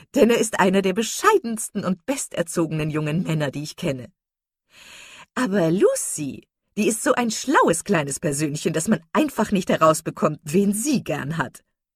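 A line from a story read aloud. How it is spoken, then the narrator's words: Hearty laughter. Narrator (German): Jennings und lachte herzlich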